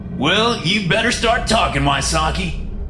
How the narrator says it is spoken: barked Yang

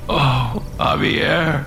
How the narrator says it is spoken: Alex whimpered

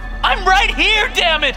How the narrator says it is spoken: She screams

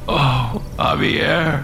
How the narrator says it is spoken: Alex whimpered

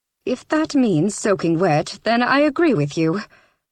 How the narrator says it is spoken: Lynette sighed

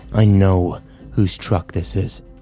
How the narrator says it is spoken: Kyle growled

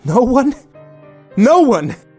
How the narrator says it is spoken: she yelled

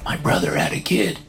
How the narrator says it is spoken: he whispers

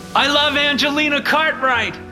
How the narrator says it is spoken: Mitchell shouted again

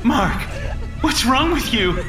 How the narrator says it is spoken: She cried again

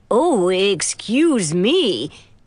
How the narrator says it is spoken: in a goofy voice

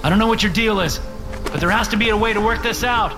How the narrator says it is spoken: shout

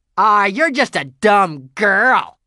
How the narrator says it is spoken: sneered Scooter

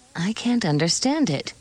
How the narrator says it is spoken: Nancy murmured

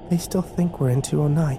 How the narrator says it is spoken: Kimber whispered

